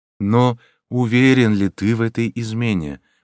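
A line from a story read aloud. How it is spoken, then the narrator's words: Soft, gentle speech. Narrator (Russian): мягко проговорил Джальма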